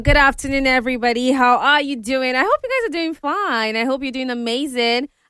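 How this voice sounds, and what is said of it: Excited, upbeat voice. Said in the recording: “I'm so excited. You can tell from my voice.”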